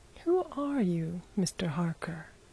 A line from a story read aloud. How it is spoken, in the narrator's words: asked Bryce quietly